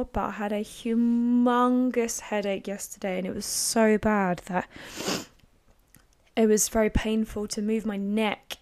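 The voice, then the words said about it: Croaky, slightly strained voice. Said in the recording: “my voice is a little bit hard work today, and it's a bit croaky. It's not sore”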